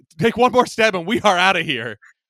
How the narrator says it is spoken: George yells

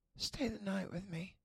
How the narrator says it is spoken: Summer purred

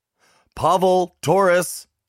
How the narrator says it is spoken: I yelled

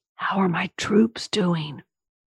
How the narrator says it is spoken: whispered loudly

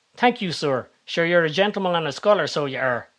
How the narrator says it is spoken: he says in his best Hollywood Irish accent

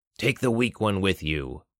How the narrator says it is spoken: Balor growled

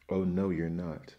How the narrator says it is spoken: roared the voice

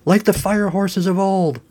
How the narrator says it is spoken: Jenkins screamed

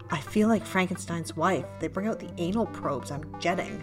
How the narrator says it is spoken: Sherry whispered

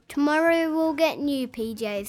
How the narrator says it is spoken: said Dad

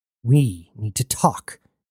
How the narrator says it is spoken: hissed Jazz

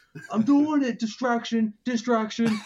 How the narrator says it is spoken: he starts screaming

